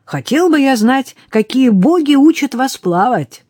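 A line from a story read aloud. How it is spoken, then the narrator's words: Exasperated exclamation. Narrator (Russian): заметил Рене и в сердцах воскликнул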